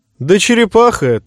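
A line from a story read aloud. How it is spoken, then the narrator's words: Cheerful. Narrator (Russian): весело заявил принц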